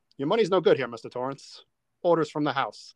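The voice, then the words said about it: Poor imitation of a film character. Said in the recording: “going to do a bad Lloyd impression.”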